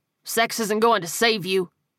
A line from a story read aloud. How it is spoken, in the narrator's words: Andrew snapped